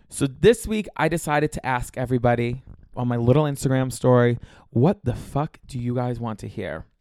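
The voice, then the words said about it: Congested, scratchy, rough voice. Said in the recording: “I'm a little bit congested. My throat is a little bit scratchy ... my voice sounds like a little bit more like tough and rough around the edges”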